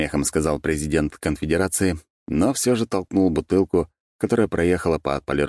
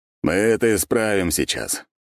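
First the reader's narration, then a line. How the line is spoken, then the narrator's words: Snort. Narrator (Russian): хмыкнул Романов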